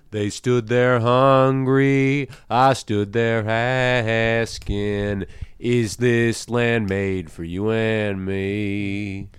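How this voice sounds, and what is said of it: Sung with a country twang. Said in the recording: “You got some twang on the end there, too.”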